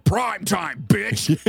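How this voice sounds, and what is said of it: Freddy Krueger impression. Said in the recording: “That's a pretty good impression... That was really good.”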